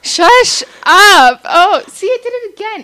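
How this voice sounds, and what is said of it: Yelling loudly. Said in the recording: “Is it just because I'm yelling?”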